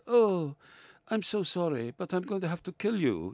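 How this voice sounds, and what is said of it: Villanelle's clipped continental Russian accent. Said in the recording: “she talks in this clipped continental accent. She's supposed to be Russian ... she talks like this ... this fantastic accent, this woman of mystery from Russia”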